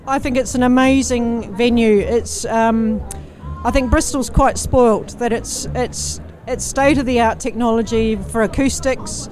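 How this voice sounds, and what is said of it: New Zealand accent. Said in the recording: “You can probably tell from my accent, I'm not originally from Bristol. I'm from New Zealand.”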